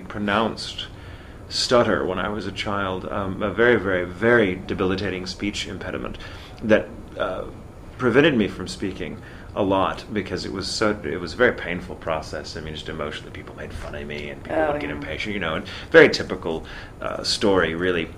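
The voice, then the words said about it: Mid-Atlantic theater accent. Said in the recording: “I have really no accent. I have that theater accent ... that wonderful sort of mid-Atlantic, as we call it, the mid-Atlantic accent that's somewhere between American and Britain”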